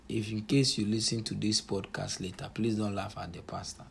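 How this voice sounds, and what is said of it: Own accent, drops H sounds. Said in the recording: “Forgive me, my accent and then my tribe, where I come from. Sometimes it's difficult to pronounce the H word.”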